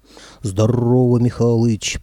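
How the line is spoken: Deep booming voice. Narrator (Russian): пробасила правая голова

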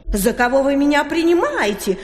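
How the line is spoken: Indignant. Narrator (Russian): возмущенно распрямилась селедка

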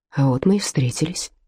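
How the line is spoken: Quiet. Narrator (Russian): тихо сказал он

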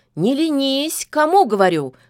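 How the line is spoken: Cheerful shout, old witch. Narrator (Russian): бодро крикнула яга

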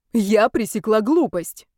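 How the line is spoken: Indignant reply. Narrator (Russian): возмущенно ответила я, вспомнив вчерашнее

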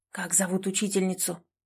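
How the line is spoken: Near-whispered question. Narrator (Russian): тихо, почти шепотом спросил он у Полины

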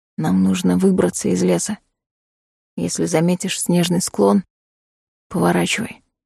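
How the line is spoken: Whisper. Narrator (Russian): шепнул Коул

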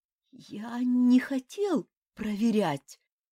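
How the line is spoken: Hoarse, spitting sand. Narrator (Russian): прохрипел мотылек, отплевываясь песком

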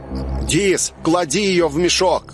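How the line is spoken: Shouting. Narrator (Russian): крикнул

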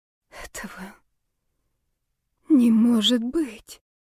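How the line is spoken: Whisper. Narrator (Russian): прошептала я

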